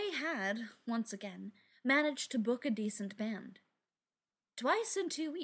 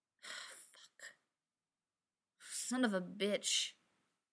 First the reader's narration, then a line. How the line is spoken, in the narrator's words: Ryan muttered